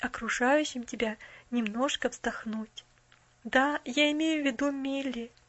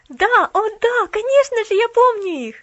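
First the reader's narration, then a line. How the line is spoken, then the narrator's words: Exclamation. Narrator (Russian): воскликнула Поллианна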